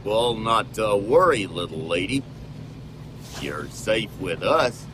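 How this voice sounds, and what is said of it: John Wayne style cowboy drawl. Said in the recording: “do a John Wayne impression”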